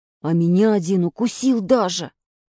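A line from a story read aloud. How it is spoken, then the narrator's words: Muttering. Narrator (Russian): пробурчал Самоделкин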